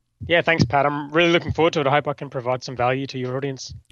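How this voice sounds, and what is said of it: Australian accent. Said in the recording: “you can obviously tell from ... accent that he's over in Australia”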